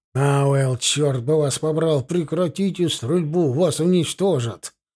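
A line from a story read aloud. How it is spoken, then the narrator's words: Crackling radio, broken words. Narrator (Russian): В наушниках рации захрипело, сквозь хрип донеслись обрывки слов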